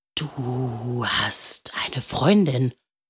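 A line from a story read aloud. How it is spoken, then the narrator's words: Whispered. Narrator (German): flüsterte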